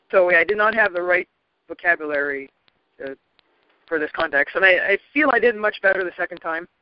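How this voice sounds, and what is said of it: French-Canadian accent. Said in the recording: “my accent, my French-Canadian accent ... the French-Québécois accent is dramatically different from European French”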